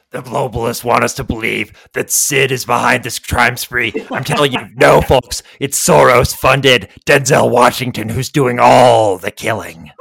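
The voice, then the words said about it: Alex Jones impression. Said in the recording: “That's a little Alex Jones for you, folks. ... It didn't just turn into an Italian accent”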